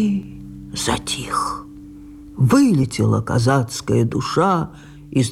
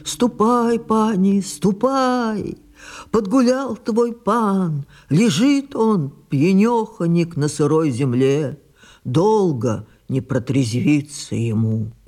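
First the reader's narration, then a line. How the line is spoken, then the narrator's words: Sobbing servant. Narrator (Russian): Зарыдал верный слуга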